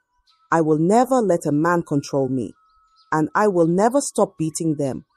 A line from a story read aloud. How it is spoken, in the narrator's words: She looked at the elders calmly and said